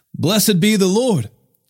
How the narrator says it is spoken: Jethro exclaimed

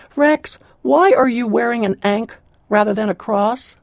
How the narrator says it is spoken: I raised my voice above the whine of the dryer, and I said

